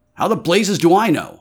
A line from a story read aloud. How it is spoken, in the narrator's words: I snapped